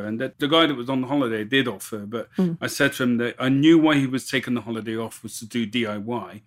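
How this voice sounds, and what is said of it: Bristol English accent. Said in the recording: “I'm originally from Bristol. That's where my accent's from.”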